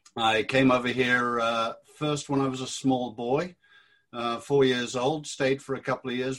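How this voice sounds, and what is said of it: British accent. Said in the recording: “as you may gather from the accent, I was 32 years in the British Army”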